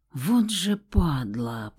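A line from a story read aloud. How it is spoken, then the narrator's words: Whispered. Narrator (Russian): прошептал Зацепин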